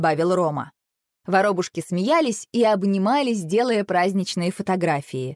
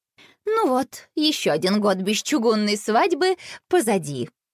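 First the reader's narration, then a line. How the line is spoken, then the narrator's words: Nervous giggle. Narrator (Russian): нервно хихикнула она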